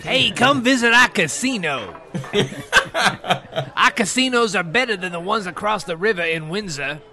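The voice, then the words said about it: Imitates another person's voice. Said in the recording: “I'm doing Kwame Kilpatrick, who's the current mayor of Detroit.”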